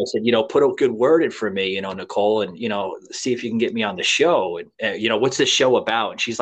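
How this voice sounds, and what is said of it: Usual voice. Nothing is said of it.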